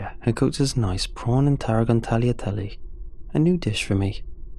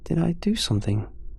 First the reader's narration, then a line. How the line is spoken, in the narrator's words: she asked, her voice coated with sorrow